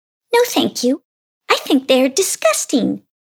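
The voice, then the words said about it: Sweet little character voice. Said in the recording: “in a sweet little voice”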